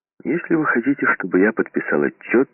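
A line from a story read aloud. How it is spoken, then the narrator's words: Sharp. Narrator (Russian): резко сказал Сомс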